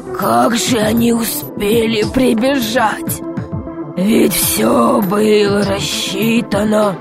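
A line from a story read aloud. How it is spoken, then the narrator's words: Desperate muttering. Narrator (Russian): бормотал он в отчаянии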